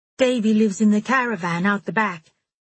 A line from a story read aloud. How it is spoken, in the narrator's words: Davy said cheerfully